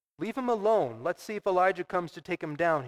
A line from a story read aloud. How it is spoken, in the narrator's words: said